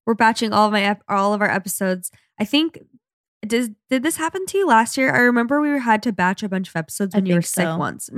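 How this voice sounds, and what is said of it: Raspy, low, sick-sounding voice. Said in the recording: “Does my voice still sound kind of sick? ... It sounds a little raspy. ... It's in its sexy low voice era.”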